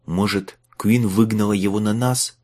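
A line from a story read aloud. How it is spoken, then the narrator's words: Hopeful whisper. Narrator (Russian): с надеждой прошептал он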